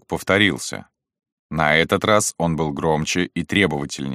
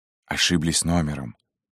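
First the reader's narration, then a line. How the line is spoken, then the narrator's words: Whisper. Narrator (Russian): сказал Шубин шепотом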